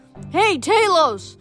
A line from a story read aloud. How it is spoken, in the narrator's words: Grover yelled